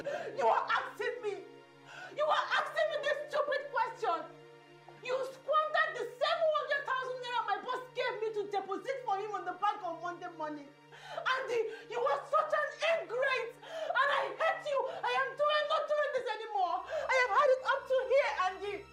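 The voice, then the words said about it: Angry shouting. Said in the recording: “Why are you shouting?”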